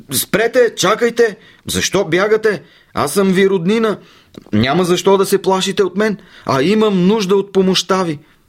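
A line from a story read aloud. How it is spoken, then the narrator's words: Shouting. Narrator (Bulgarian): Анансе извикал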